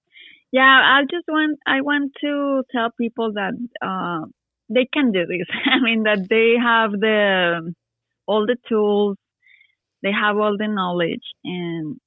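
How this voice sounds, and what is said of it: Non-native accent speaking English. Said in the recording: “they notice my accent ... Even with my accent”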